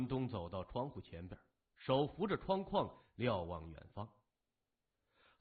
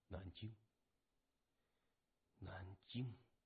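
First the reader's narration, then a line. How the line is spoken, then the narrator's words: Muttering to himself. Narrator (Chinese): 谢文东喃喃自语说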